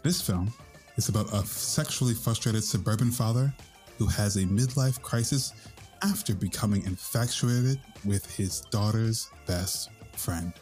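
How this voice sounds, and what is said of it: Weird, sexy NPR radio voice. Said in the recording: “Sorry for my weird, sexy... NPR voice.”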